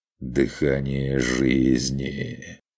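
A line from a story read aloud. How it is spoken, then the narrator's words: Blissful drawl. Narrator (Russian): Блаженно протянул заботливый владелец уникальной кобылы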